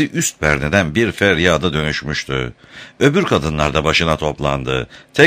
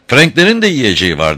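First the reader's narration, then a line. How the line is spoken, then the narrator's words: Woman crying out. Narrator (Turkish): diye haykırdı kadın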